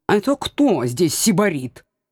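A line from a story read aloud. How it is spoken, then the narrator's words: Indignant cat. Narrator (Russian): чутко отреагировал кот возмущенным тоном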